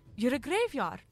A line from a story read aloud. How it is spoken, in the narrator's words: she exclaimed in hope and relief